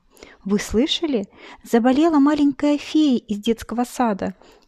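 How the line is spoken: Shouted from treetop. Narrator (Russian): выкрикнула сорока с верхушки березы

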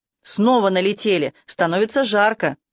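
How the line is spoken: Roaring receiver. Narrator (Russian): Трубка взревела

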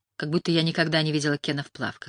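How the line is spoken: Overly grumpy tone. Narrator (Russian): сказала Лайла более сварливым тоном, чем это было необходимо

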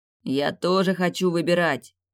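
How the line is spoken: Chorus growling. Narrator (Russian): прорычал хор

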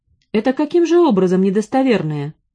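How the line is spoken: Sharp question. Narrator (Russian): Делени резко спросил

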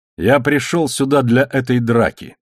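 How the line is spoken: Plain. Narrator (Russian): сказал Эндрю Харбен

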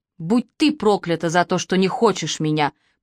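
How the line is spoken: Hissing reply. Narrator (Russian): прошипел он в ответ

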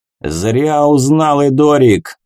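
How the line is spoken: Loud laughter. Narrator (Russian): захохотал Вэмп

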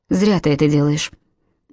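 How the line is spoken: Even, level voice. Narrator (Russian): ровным голосом продолжал Альфред

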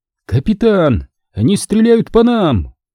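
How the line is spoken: Distant shout from below. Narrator (Russian): Ниже, казалось, кричал сам воздух

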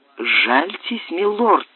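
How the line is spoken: Pleading voice. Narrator (Russian): умоляющим голосом еще раз сказал слуга

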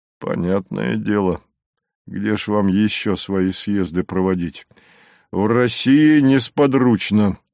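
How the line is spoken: Grumbling. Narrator (Russian): буркнул Савва

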